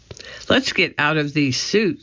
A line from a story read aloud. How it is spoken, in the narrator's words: said Annie